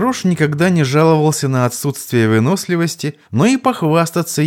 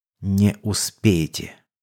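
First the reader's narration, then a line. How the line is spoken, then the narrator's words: Gloating whisper. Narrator (Russian): Дирт ... злорадно прошептал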